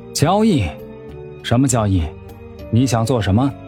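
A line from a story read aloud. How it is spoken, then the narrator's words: Deliberately lowered voice. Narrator (Chinese): 苏月心低着头，故意压低了嗓音说道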